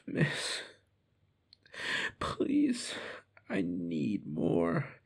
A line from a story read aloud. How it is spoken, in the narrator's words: moaned